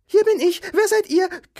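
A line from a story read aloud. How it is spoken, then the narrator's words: Squeaking woman. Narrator (German): quiekte sie, als sie aus der Tasche herausgezogen wurde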